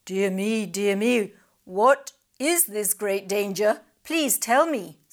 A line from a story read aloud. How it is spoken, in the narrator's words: said the crab